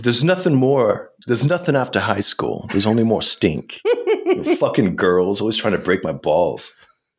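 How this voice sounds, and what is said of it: Brooklyn-style imitation of Dickens. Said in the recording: “talk like Dickens ... Kanicki accent ... It's not quite. ... I'm a little more Brooklyn accent going on here.”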